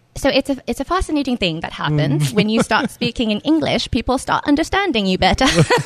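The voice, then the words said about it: Put-on English accent. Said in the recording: “this English accent”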